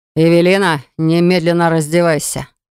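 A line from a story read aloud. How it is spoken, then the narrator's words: Menacing hiss. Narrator (Russian): С угрозой в голосе прошипел Вейнер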